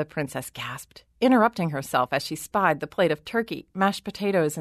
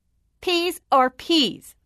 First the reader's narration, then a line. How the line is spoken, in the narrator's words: the princess shouted